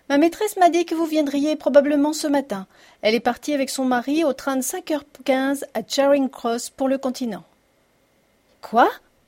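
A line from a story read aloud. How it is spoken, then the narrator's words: Exclaimed. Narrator (French): s'écria Sherlock Holmes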